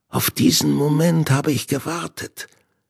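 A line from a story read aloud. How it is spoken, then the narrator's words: Hissed. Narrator (German): zischte Hinde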